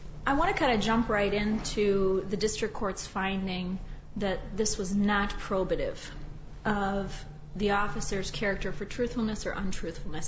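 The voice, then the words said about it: Strained, under-the-weather voice. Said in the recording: “Forgive my voice. I'm a little bit under the weather here.”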